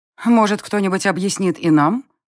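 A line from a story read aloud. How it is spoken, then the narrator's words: Irritated interjection. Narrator (Russian): Раздраженно вмешалась в наш разговор бывшая монашка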